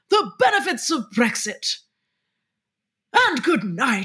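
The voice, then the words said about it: Posh upper-class English impression. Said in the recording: “Your posh accent of Jacob Rees-Mogg ... your generic like saddle of beef Tory MP impression”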